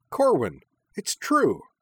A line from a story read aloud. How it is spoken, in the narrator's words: cried Minami cheerfully